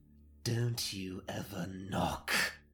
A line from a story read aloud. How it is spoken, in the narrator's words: I growled